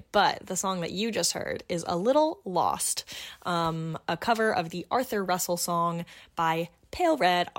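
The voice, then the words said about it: Husky, hoarse sore-throat voice. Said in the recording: “I have a little bit of a sore throat, which is why I sound just a bit like Kathleen Turner”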